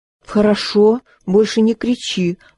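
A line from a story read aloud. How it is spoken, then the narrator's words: Mother pleading. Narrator (Russian): взмолилась мама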